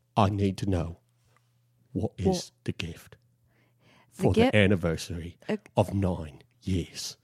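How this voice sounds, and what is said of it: British accent imitating another person's voice. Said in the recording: “a pretty decent British accent... That's my Michael Caine... accent”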